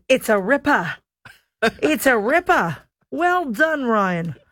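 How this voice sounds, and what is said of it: Weak put-on Australian accent. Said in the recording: “My Australian accent is absolutely abysmal ... I'm trying to craft my Australian accent. ... That was pretty good. ... That was pretty bad.”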